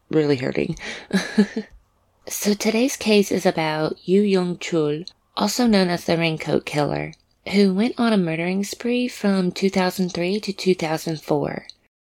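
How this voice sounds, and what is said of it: Strong country accent, hard R's. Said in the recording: “I have a very strong country accent, and I pronounce my R's very hard”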